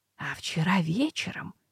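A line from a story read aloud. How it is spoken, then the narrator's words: Dropping to whisper. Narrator (Russian): понизила голос до шепота Ната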